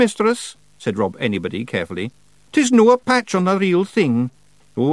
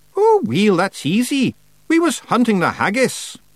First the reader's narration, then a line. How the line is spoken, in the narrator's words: There was a tiny, tiny pause before Rob Anybody said happily